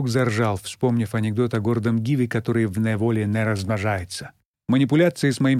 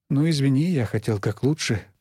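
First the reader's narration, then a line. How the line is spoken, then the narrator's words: Mumbled. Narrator (Russian): пробормотал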